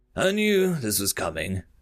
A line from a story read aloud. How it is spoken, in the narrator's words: the Terran sighed